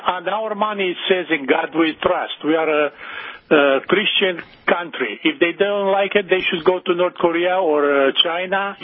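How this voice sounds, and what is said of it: Romanian-accented English. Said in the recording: “You clearly have an accent. ... originally I'm from Romania.”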